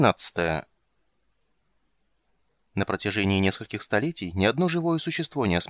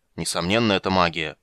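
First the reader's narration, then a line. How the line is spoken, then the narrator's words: Scathing grumble. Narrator (Russian): проворчал, обращаясь к Карамону Ригар, уничтожающий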